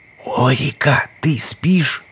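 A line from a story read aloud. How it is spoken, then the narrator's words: Hiss. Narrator (Russian): прошипел Мидо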